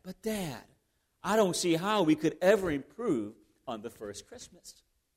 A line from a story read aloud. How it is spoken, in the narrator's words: whispering to Dad